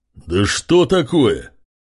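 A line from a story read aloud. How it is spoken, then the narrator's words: Loud bark. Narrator (Russian): Рявкнув во весь голос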